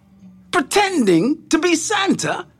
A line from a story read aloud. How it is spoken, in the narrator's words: Santa said angrily